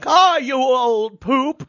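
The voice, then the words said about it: Katharine Hepburn impression. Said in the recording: “doing an impression of Katharine Hepburn”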